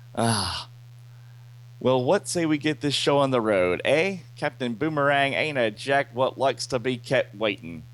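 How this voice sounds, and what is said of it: Poor put-on Australian accent. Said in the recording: “My Australian accent still sucks.”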